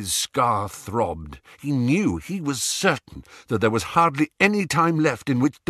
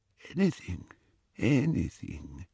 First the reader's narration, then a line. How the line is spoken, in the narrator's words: said the wand-maker weakly